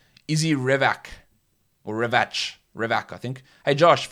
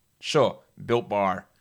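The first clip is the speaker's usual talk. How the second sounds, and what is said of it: Put-on American accent. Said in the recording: “can you say Built Bar with an American accent?”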